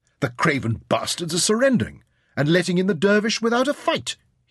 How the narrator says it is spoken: he barked

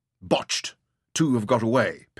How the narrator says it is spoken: Penrod snapped angrily

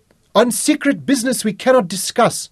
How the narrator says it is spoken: Wellington shouted back

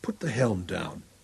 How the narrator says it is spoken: To the helmsman beside him softly

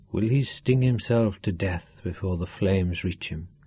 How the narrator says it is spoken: he asked softly

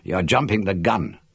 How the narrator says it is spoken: I snapped

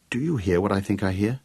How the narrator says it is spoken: asked Gareth

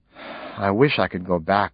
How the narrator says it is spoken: sighed

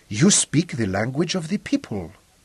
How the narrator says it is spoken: whispered

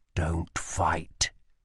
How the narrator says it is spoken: he whispered

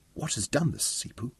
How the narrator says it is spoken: Kelly whispered

